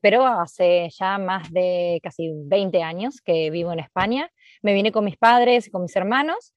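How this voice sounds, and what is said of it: Argentine Spanish accent. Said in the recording (Spanish): “soy argentina, como se nota en el acento”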